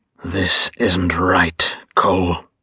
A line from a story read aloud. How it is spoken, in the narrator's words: Jeremiah hissed